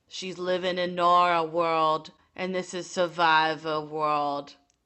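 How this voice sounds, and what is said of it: Imitates another person's voice. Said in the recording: “let me try my Boston Rob ... it's probably as good as my Sandra impression”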